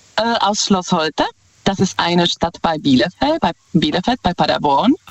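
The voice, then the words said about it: Slight Czech accent in German. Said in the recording (German): “Ich höre einen leichten Akzent raus. Wo kommt der her? ... Ich komme ursprünglich aus Tschechien.”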